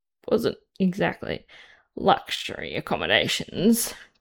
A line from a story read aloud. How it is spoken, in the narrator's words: Chris mutters, finally more aware of what happened